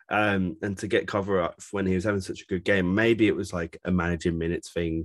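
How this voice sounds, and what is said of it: Strained, fading voice. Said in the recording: “Sorry, my voice is going.”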